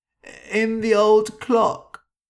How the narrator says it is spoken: cried

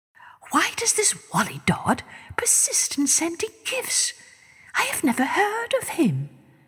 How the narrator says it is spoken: She whispered to her Prime Minister

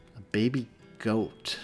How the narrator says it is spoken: Hudson repeated slowly, as though the words were foreign to him

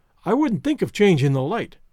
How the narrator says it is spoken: cried Mrs

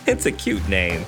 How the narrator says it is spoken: she laughed

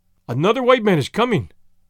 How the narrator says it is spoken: he cried to the chief

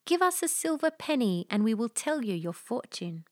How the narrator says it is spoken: all the birds began to sing more sweetly than sirens and cried

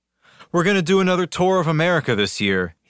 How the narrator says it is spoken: he sighed to one journalist

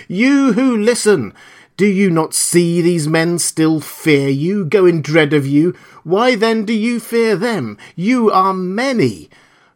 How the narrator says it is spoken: I cried, shouting past him to the beastmen

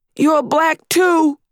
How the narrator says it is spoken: yelled

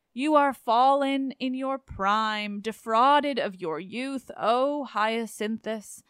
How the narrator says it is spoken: moaned Apollo

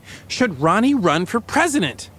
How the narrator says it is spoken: Nancy gets a little heated and says rather loudly

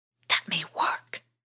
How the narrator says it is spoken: he whispered back

